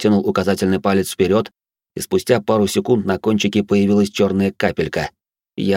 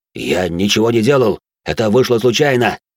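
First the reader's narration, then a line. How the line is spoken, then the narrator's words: Panicked reply. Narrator (Russian): паническим голосом ответил маркиз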